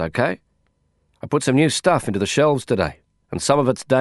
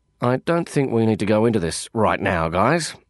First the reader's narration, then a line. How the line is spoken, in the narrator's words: I grumbled